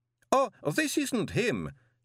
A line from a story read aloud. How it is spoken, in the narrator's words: said the professor cheerfully